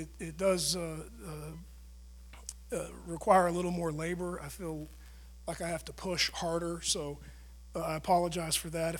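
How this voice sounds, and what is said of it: Raspy, strained voice. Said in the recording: “sorry about my voice. It sounds a little raspy. ... I've seen some things wane in my throat and in my voice”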